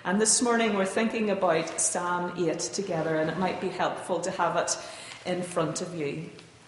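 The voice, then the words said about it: Irish accent. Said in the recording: “your accent is so interesting ... the slight differences in the Irish accent”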